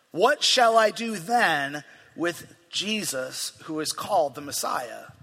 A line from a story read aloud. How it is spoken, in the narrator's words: Pilate asked